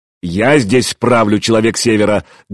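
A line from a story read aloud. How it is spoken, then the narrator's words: Bellowed. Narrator (Russian): гаркнул Гостомысл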